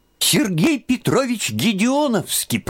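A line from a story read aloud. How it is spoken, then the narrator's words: Squeaky boy's voice. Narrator (Russian): пропищал краснощекий казачок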